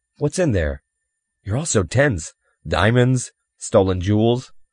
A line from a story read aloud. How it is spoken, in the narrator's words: Jan laughed harshly, mirthlessly